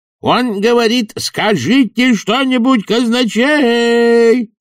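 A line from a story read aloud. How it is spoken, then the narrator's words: Obliging yell into ear. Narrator (Russian): услужливо заорал чудакули казначею в ухо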